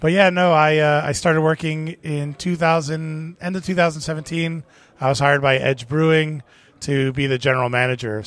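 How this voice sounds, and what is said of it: Miami accent. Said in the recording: “I'm originally from Miami, as you could tell by the accent.”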